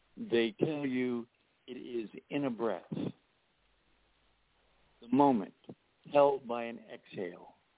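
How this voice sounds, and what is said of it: Strained, failing voice. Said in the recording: “Keep losing my voice.”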